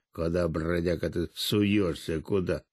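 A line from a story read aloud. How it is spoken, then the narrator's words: Dog growling. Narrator (Russian): лохматая дворняжка зарычала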